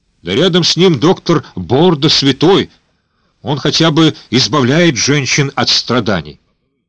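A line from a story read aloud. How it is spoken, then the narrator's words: Shouted out. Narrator (Russian): Кто-то выкрикнул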